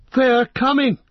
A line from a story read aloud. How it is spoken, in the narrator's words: cried Legolas